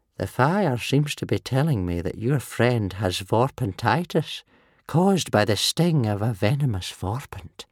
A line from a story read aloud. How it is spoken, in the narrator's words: said Old Wrinkly, sadly